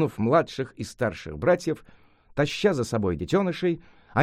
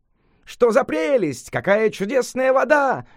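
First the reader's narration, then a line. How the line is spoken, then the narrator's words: Delighted shouting in unison. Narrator (Russian): в один голос закричали обезьяны, от восторга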